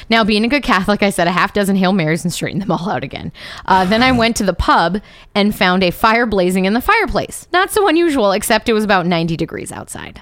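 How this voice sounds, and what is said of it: Reading in a put-on accent. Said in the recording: “I can't do this accent anymore ... I'm getting sick of my own voice”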